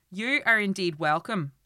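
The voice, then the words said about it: Put-on Northern Irish Derry accent. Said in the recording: “I'm going to attempt a Northern Irish accent. ... It's going to be mostly Derry ... they've been on a trip to Belfast and they've had Yorkshire parents. That's the accent we're going to be getting.”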